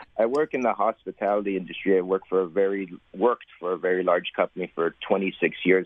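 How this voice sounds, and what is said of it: Hoarse, sore-throated voice. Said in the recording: “I have a bit of a sore throat.”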